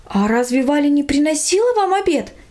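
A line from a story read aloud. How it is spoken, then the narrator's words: Mother's surprise. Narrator (Russian): удивилась мама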